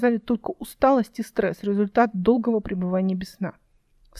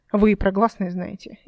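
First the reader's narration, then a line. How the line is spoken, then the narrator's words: Sarcastic remark. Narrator (Russian): язвительно заметила Эл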